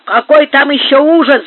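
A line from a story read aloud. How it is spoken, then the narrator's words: Shout. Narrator (Russian): закричал Маркос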